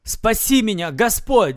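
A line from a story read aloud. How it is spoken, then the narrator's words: Shouting. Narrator (Russian): закричал он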